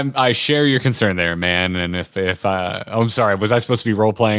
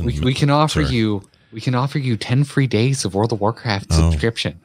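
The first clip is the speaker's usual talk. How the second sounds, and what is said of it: Motherly customer-service voice. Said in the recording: “my default mom voice”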